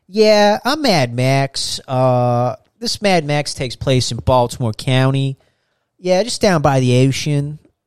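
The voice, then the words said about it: Put-on Baltimore accent. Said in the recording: “that Baltimore accent”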